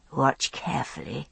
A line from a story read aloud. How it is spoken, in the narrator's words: I said, my voice husky with sleep